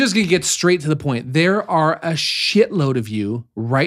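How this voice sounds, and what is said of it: Usual voice. Nothing is said of it.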